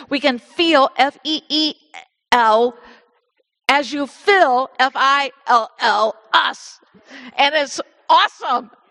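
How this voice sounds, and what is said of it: Hoosier accent, feel and fill sound alike. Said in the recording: “this is hard for me to say with my Hoosier accent ... I say those words alike, and I know I do”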